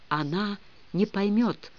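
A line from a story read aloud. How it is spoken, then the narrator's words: Whisper. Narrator (Russian): шепотом говорил он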